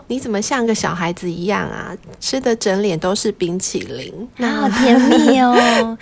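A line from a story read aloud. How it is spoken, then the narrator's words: Laughing. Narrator (Chinese): 学长笑了，说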